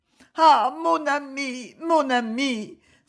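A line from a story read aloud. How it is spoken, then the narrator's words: Tearful cry. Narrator (French): s'écria-t-elle en fondant en larmes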